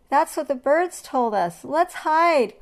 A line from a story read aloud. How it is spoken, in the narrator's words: cried the monkeys